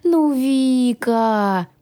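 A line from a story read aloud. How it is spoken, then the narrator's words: Drawn-out. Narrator (Russian): протянул дракон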